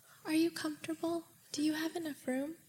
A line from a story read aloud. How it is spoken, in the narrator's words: asked me so sweetly